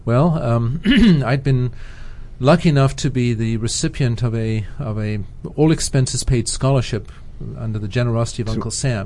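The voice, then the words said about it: Speaks with a noticeable accent. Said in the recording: “Where's that accent from?”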